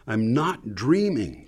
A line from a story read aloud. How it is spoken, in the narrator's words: practically yelled